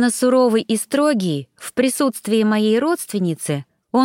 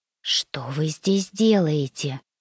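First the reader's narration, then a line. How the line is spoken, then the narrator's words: Lowered-voice whispered question. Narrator (Russian): понизив голос до шепота, поинтересовалась я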